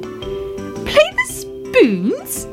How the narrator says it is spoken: cried Fuzzy Ted

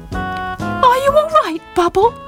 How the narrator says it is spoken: Squeak asked anxiously

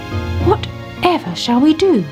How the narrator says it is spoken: she cried

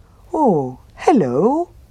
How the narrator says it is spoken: said the bear happily

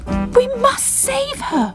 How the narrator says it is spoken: cried Bubble

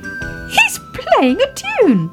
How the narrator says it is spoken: cried Baby Ted

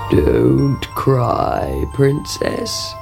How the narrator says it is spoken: croaked a voice

